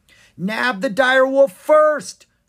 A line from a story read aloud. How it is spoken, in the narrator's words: cried one of the hunters